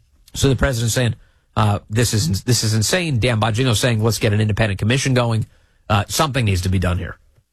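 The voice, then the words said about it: Voice affected by a cold. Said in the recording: “I've got to clear my throat a little bit. I've got a little bit of a cold ... I have to keep muting a little bit so I can cough, hack along up.”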